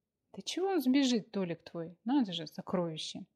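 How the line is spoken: Irritated snort. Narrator (Russian): С раздражением фыркнула Аня

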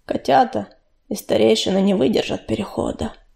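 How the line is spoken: Muffled, hollow. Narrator (Russian): глухо сказал он

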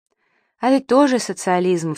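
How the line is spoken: Mother sighing. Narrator (Russian): вздохнула мама

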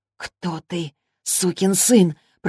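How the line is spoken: Whisper. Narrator (Russian): прошептала она

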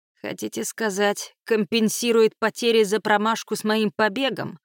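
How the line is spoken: Chuckling. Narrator (Russian): хохотнул Ломакс

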